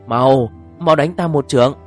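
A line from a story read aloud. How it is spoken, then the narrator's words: Panicked shout. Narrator (Vietnamese): thiên y cư sĩ lập tức hoảng sợ hét lên với lão lâm thiền sư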